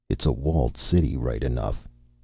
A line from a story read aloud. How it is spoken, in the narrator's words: he muttered presently